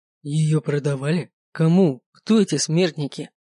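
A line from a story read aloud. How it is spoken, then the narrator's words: Growled. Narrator (Russian): прорычал он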